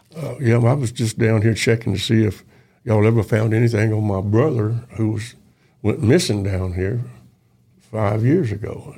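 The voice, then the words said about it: Country accent. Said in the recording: “real country accent”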